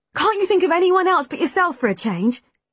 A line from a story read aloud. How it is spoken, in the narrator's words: Callum snapped